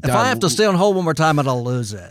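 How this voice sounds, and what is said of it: Imitates another person's voice. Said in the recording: “That's a good Hannity impression.”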